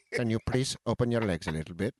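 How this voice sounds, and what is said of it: Put-on Indian accent. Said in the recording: “Your Indian accent was spot.”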